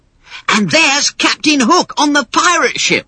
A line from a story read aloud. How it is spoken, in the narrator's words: exclaimed Michael, jumping up and down with excitement